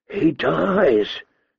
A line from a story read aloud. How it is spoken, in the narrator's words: she whispered